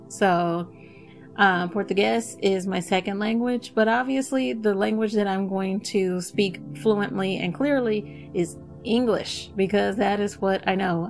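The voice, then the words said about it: Slight Texas accent. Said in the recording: “I even have a bit of a Texas accent. ... certain words I say are gonna have a bit of a Texas sound to them.”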